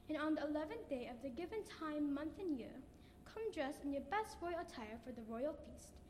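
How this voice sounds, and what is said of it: Put-on accent. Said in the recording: “the accent”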